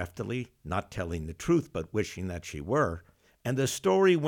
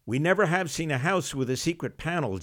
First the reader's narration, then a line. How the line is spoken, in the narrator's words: June Star shrieked